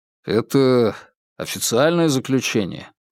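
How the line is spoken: Glum clarification. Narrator (Russian): уныло уточнил Феликс

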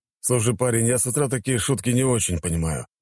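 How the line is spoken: Grumbled. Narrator (Russian): пробурчал он

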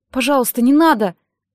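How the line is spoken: Pleading. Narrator (Russian): взмолилась

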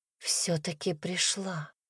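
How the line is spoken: Whisper. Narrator (Russian): Дарина почему-то заговорила шепотом

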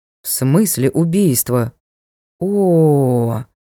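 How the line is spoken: Drawn-out drawl. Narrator (Russian): Протянул Ник

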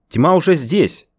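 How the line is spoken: Shouting. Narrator (Russian): выкрикнул я

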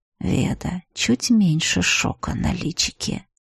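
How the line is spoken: Teasing whisper. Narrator (Russian): бессовестный остроухий прошептал

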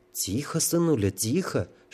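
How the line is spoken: Tender whisper. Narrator (Russian): шептала Оленька, ласково его поглаживая

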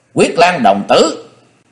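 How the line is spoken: Boy's sudden shout. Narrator (Vietnamese): Đột nhiên một đồng tử ... nói như thét

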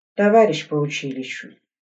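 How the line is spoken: Sighing. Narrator (Russian): вздохнул Игорь

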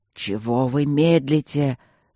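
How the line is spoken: Furious growl. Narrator (Russian): зарычал он взбешенно

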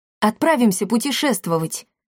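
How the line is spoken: Joyful speech. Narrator (Russian): радостно сказал Триш

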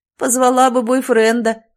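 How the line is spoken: Chuckled. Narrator (Russian): хохотнул Семен

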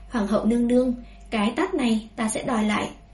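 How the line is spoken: Calm, smiling. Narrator (Vietnamese): Vẻ mặt Bùi Nguyên Ca không thay đổi, mỉm cười nói

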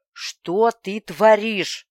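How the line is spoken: Growling up close. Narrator (Russian): прорычал он в самое мое лицо

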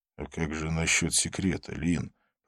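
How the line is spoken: Whisper. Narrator (Russian): прошептал Абдулла

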